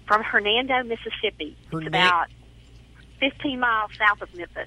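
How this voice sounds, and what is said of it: Southern US drawl. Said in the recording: “I just love your southern drawl.”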